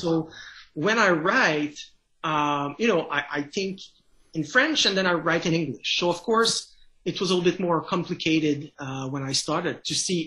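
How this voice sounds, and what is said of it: French Canadian accent. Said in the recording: “as you can tell by my accent, I'm a French Canadian”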